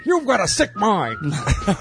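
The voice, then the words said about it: Cartoon character voice impression. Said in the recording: “That was my best Peter Griffin impression.”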